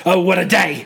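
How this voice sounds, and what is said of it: Impression of a film character. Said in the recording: “your Nux impression”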